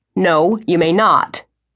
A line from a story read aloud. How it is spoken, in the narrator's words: his father said, his voice a bit sharper than he'd intended